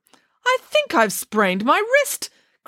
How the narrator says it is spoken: cried Nanny Piggins

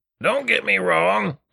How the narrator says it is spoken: grunted Richter

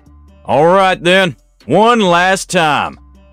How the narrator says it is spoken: the bad shouted

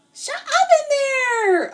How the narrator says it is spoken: yell

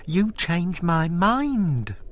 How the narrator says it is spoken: squeaked

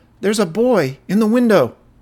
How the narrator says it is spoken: one of the children raised his hand and cried out

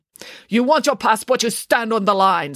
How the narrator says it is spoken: snapped the grumpy woman

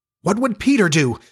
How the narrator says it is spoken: they cried simultaneously

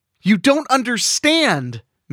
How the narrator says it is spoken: Mandy shrieked

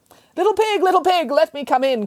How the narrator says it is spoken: cried the butcher

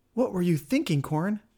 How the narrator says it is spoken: asked Nea

